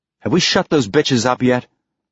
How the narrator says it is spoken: Ashford snapped

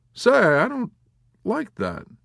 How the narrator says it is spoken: Havemeyer exclaimed, rising resentfully

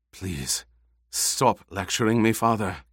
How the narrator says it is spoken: Kynes whispered

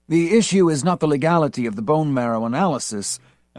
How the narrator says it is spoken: Eldon Rosen said huskily

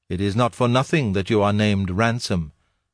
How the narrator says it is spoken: said the voice

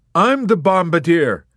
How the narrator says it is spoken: Yossarian cried back at him

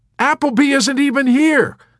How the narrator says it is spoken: Clevenger pointed out triumphantly

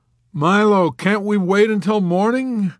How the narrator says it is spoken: Yossarian pleaded

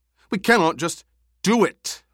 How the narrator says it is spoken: Paul barked

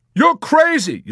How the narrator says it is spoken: Yossarian shouted angrily at Dunbar

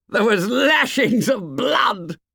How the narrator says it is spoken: said Jack, laughing and shuddering

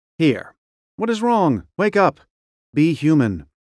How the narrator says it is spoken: say sharply to yourself mentally

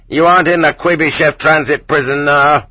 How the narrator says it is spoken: Several of them at once flew at the offender like a pack of dogs, yelling in unnaturally loud voices

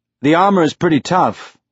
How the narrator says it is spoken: Juarez said

